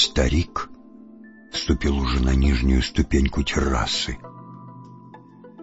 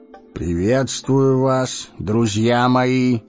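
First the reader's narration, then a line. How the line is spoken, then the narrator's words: Fresh, youthful voice. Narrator (Russian): произнес нищий свежим, вовсе не старческим голосом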